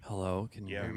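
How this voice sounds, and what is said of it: Intimate, sultry low speaking voice. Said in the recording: “our guest with the sexiest voice ... Very intimate. This is my podcast voice ... Look how sexy that voice is”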